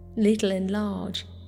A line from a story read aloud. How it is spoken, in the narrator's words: laughed